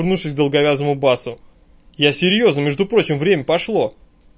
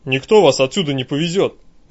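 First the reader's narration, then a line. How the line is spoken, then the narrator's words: Hoarse bass objection. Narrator (Russian): возражает старший местный долговязый с простуженным басом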